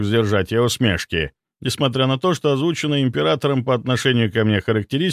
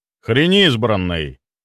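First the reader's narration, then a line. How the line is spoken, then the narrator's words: Sudden sharp reply. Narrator (Russian): неожиданно резко ответил Чарльз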